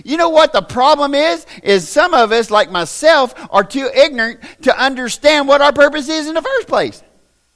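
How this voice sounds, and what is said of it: Hillbilly Southern accent. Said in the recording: “I'm a hillbilly, y'all. I don't talk right. I got an accent.”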